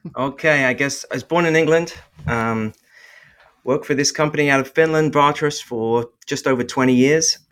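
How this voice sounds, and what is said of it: Noticeable non-American accent. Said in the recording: “You you got an accent”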